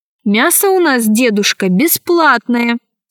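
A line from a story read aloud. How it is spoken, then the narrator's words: Plain. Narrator (Russian): сказала она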